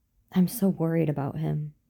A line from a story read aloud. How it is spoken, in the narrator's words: Olivia confessed